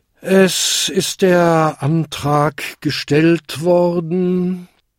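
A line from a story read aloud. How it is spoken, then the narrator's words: Tired chairman speaking. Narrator (German): sagte der müde Versammlungsleiter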